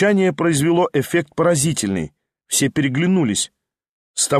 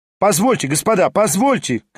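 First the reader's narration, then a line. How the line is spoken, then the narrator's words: Shouting. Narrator (Russian): кричал Хромой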